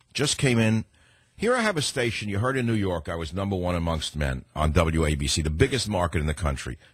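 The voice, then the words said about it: Heavy New York accent. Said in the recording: “an American broadcaster with a heavy New York accent”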